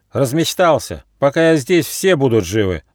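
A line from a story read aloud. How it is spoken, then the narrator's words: Young squirrel shouting. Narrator (Russian): закричал бельчонок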